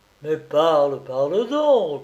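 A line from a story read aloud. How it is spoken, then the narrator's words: Kneeling pleading. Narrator (French): suppliai-je, toujours agenouillé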